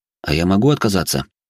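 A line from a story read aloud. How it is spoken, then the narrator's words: Plain question. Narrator (Russian): спросил я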